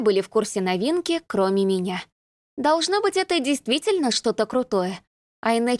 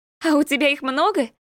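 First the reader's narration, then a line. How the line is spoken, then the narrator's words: Giggling. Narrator (Russian): хихикнула рыжая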